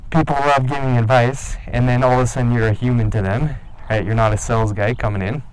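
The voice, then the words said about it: Canadian accent. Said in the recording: “Maybe you have an accent, like myself. Maybe you're talking like a Canadian.”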